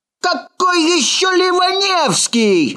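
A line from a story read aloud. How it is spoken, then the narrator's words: Shout. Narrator (Russian): закричал Ложкин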